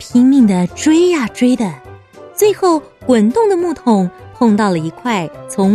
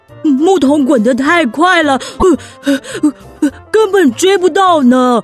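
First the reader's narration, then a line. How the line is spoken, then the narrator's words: Panting while running. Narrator (Chinese): 小熊维尼 边跑边喘着气说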